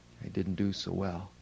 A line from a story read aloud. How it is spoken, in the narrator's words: he sadly said